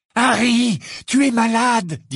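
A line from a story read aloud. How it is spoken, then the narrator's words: Trembling voice. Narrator (French): dit-il d'une voix tremblante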